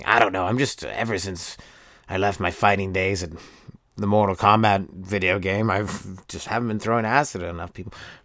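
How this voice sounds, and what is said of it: Voice of a video game character. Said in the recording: “my impression of Reptile, the character from Mortal Kombat, in his later years ... Pretty spot on, I think.”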